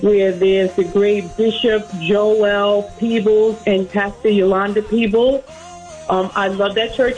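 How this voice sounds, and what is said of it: New York accent. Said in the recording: “You can hear the accent. ... She's from New York.”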